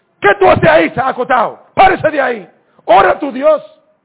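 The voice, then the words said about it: Booming, thunderous male character voice. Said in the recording (Spanish): “ese capitán con voz de trueno ... Una voz de hombre.”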